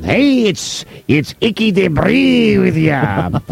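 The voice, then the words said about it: Fake Irish accent. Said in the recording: “the fake Irish accent”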